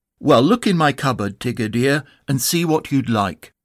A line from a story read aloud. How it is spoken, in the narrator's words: Kanga said very kindly